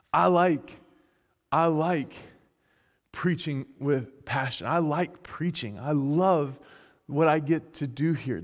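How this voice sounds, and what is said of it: Southern American accent. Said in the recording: “I like my southern accent.”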